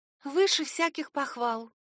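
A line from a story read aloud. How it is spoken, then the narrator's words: Breathless disbelief. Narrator (Russian): выдохнула, словно сама не могла поверить в такую удачу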